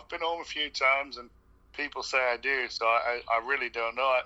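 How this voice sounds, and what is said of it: Canadian accent with a British twang. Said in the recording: “I still had the Canadian accent, but I guess I've got a bit of the twang ... people think I'm Irish. People think I'm from Australia.”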